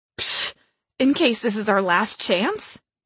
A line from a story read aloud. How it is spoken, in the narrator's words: Charm scoffed